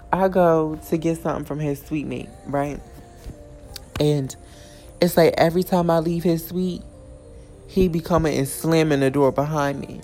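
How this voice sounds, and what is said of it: Strained, hoarse voice. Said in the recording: “my voice is not here today, all that yelling”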